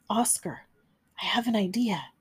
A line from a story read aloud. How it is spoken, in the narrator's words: Finn whispered